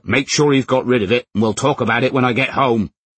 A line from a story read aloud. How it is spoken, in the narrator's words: Howard shouted